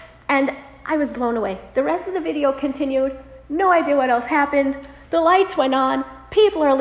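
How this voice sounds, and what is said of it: Usual voice. Nothing is said of it.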